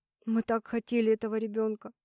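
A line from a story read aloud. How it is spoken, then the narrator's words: Woman sobbing. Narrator (Russian): Снова всхлипнула женщина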